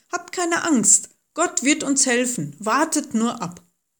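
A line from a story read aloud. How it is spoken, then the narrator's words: Calling out. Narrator (German): Aber Mose rief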